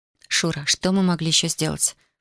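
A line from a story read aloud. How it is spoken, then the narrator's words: Whispered. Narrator (Russian): прошептала Татьяна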